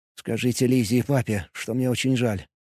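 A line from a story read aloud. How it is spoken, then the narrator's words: Barely audible. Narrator (Russian): еле слышно произнес он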